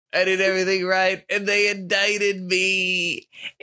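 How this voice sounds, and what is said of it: Imitates another person's voice. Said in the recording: “Is that your Trump impression?”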